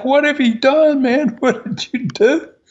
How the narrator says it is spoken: they screamed at Wright

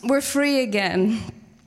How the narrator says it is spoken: her little toddlers laugh

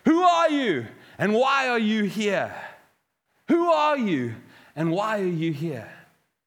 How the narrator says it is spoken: the voice called out to him saying

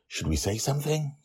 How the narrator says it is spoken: Susie whispers to me

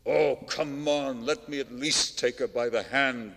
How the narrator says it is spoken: Nerzhin said angrily

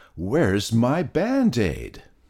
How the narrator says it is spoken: yelled Peter

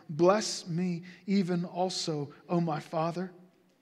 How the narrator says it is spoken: Esau cried out with an exceedingly great and bitter cry and said to his father

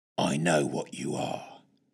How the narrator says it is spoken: he hissed

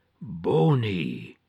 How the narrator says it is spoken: groaned out

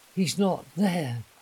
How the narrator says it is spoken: she gasped

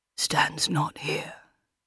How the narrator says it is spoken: says, almost whispering in her ear

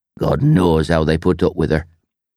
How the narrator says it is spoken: grumbled

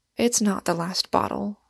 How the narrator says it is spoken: answered my criminal calmly

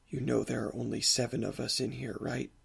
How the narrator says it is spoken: He whispers in my ear

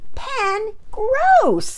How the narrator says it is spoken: Pearson shouted

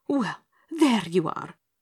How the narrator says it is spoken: panted the merchant angrily

